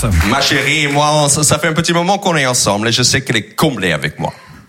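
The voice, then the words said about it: American accent speaking French. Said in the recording (French): “américain ... cet accent et j'adore”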